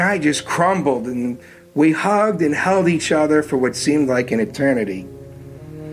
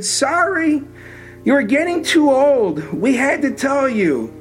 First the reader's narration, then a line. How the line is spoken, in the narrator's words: My mom she just cried and she said